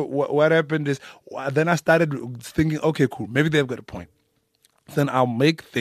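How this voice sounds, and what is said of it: Usual voice. Nothing is said of it.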